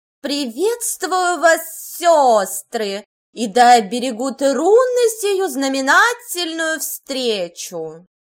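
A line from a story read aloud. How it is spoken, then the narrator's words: Loud proclamation. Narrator (Russian): провозгласила госпожа Ирвик достаточно громко, чтобы ее услышали оставшиеся деревенские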